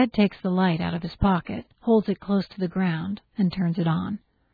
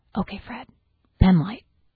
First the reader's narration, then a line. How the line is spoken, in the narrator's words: whispers